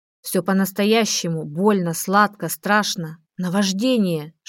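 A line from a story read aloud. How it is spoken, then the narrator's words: Whisper. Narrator (Russian): шептал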